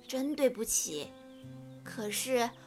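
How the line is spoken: Sighing. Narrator (Chinese): 长颈鹿太太叹了一口气说

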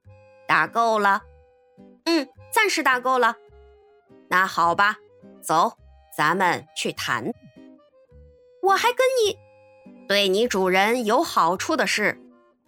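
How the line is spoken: Cold. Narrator (Chinese): 费克斯冷冷地说

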